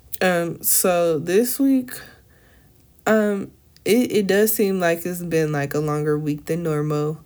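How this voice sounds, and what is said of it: Scratchy, congested voice from a cold. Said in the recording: “I'm kind of catching a cold over here. Um, you can probably already tell in my voice ... my throat is a little scratchy at the moment.”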